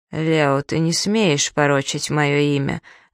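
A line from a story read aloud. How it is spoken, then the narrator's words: Lifeless voice. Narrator (Russian): говорит монсеньор безжизненным голосом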